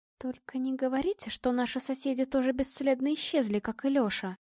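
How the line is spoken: Barely audible whisper. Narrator (Russian): чуть слышно прошептала Настя

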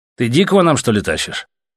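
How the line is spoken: Irritated question. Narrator (Russian): раздраженно спросил у прыща командир

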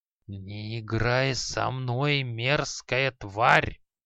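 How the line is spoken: Hissing old man. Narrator (Russian): прошипел старик

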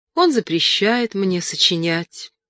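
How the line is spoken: Sad reply. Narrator (Russian): грустно ответила она

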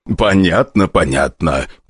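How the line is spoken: Deep bass voice. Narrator (Russian): пробасил старший Селиванов

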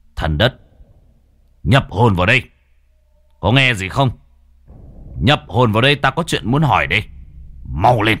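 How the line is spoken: Stern voice. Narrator (Vietnamese): Cậu nghiêm giọng

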